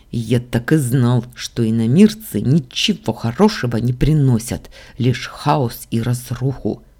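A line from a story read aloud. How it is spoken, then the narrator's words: Through gritted teeth. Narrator (Russian): процедил Дамиан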